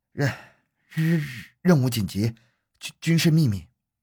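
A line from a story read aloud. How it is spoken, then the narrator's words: Stammering. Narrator (Chinese): 好半天才结结巴巴地说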